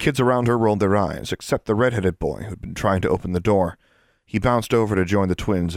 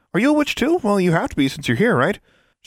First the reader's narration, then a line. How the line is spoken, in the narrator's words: She giggled